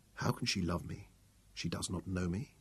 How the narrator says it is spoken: he said softly

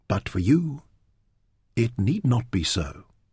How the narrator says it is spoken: Eos said softly

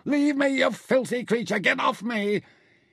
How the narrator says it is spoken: Involuntarily, he screamed

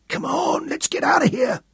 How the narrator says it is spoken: Ed Broom whispered

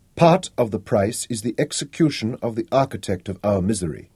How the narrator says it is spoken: said sharply

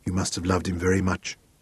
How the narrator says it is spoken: he asked softly

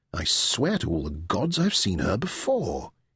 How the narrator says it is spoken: murmured to himself

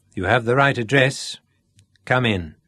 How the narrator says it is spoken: said the priest dryly

